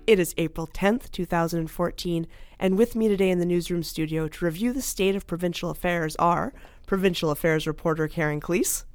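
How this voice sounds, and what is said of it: Raspy voice. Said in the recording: “Despite my raspy voice”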